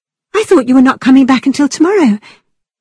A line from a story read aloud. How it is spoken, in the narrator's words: she quickly added